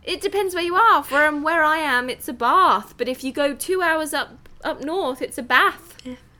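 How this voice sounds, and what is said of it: Non-American English accent. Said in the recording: “You trip us up with your accent”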